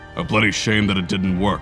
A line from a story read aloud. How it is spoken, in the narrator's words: Toru growled